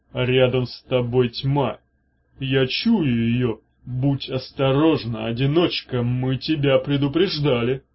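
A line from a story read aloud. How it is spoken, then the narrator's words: Droning boom. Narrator (Russian): прогудела Таамак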